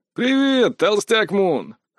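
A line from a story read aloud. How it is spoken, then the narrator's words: Chuckling little man. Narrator (Russian): хохотнул мужичок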